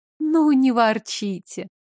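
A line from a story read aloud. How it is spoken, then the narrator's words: Gentle, affectionate. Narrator (Russian): ласково сказала Доля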